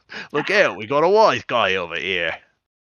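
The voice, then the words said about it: Mobster accent blended with Australian. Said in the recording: “I'm going to try to like merge like a typical mobster accent with like an Australian accent ... It doesn't work. It sounds bad. It's weird.”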